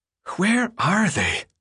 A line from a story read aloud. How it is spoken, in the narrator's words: Newt said, his voice thin and strained